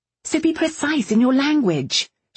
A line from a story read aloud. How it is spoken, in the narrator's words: she snapped